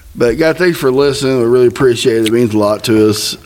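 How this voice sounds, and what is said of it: Mumbly northern Indiana-Missouri drawl. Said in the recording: “I sound like I got a mouthful of marbles ... That's that northern Indiana drawl ... Southeast Missouri, too. You all mixed all into one.”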